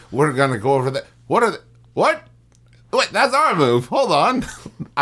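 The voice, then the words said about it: Weak put-on Scottish accent. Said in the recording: “My Scottish accent wasn't as good as my weird British accent.”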